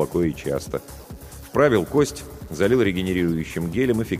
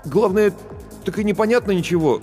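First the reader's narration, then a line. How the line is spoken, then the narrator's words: Confused speech. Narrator (Russian): растерянно произнес Барботько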